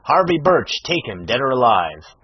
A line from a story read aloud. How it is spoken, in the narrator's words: the stentorian voice of Lawton rang through the valley, shouting